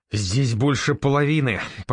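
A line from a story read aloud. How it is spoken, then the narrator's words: Stunned exhale, then angry. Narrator (Russian): пораженно выдохнул и зло закончил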